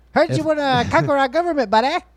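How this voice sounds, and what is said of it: Poor imitation Canadian accent. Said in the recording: “That's pretty bad Canadian accent there.”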